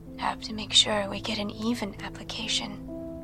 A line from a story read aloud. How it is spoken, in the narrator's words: she whispered